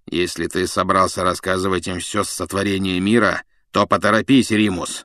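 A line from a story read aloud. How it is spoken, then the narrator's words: Grumbling. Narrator (Russian): проворчал Блэк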